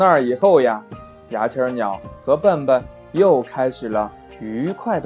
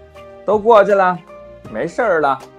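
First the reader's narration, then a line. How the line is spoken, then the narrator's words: Loud comforting voice. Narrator (Chinese): 牙签鸟……大声地说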